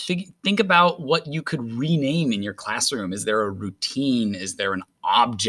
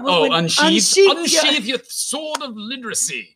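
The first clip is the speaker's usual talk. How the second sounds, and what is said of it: Put-on British accent. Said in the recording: “Everything sounds better with a British accent.”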